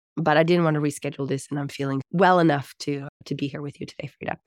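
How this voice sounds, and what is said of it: Husky, raspy voice. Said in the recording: “you can hear that I sound very sexy. ... I've had a bad cold ... it's still affecting my vocal cords and it's in my throat”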